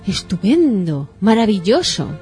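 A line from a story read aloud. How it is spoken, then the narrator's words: Loud exclamations. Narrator (Spanish): exclamando en voz alta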